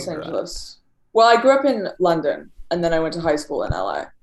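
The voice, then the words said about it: Light British accent. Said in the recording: “you have an interesting accent. It's like, it's British light in a way. ... surfer British”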